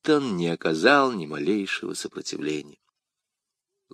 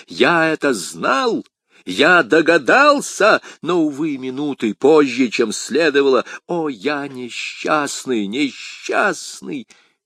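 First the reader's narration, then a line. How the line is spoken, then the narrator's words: Shouted. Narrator (Russian): лорд Винтер закричал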